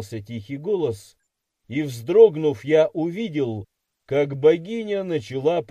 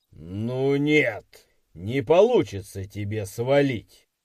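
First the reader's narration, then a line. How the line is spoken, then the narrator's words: Growl. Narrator (Russian): прорычал Сайдекс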